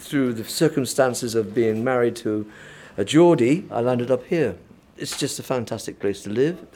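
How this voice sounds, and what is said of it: Southern English Devon accent. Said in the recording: “As you can guess from my accent, I'm not a Mackem, I come from the deep south ... Devon.”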